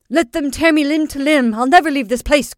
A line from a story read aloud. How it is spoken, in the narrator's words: cried I